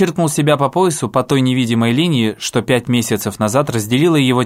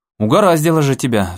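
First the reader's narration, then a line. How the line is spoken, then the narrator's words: Guard sighing. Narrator (Russian): вздохнул охранник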